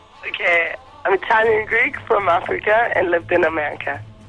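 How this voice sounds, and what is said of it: Unusual mixed foreign accent. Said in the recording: “What's that crazy accent you've got”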